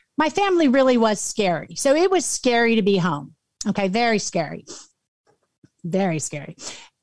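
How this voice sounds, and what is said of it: Choked-up, emotional voice. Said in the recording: “I get choked up”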